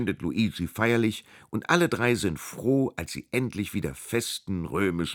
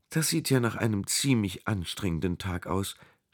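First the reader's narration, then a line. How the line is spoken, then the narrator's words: Gentle remark. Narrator (German): stellt sanft fest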